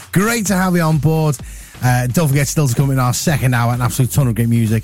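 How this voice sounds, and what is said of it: Husky voice, sore throat. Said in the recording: “I've got a bit of a sore throat ... I'm a bit husky”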